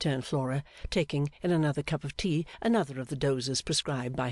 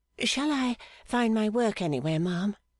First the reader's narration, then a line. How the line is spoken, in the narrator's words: asked Little Dorrit, looking timidly